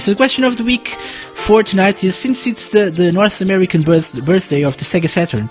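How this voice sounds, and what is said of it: Sore-throated, slightly strained voice. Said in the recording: “my throat is a bit sore uh, again tonight, so uh, I'm sorry if my voice is a little weird. Weirder than usual”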